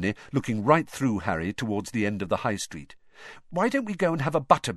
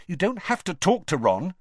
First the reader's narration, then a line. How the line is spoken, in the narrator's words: she added irritably